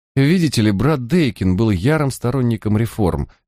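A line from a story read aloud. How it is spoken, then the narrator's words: Hesitant. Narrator (Russian): неуверенно продолжал Филлипс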